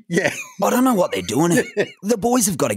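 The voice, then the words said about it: Gruff, exasperated David King impression. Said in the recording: “I have been working on my David King ... I impersonate David King all the time ... he's a big bloke and he has this gruff voice and he's very authoritative ... He always seems to be exasperated”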